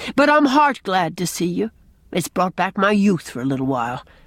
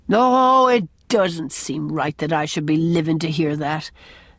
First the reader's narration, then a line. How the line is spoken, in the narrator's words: sighed Captain Jim